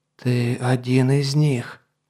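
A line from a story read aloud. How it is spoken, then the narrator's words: Hoarse rasp. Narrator (Russian): прохрипел Гархолокс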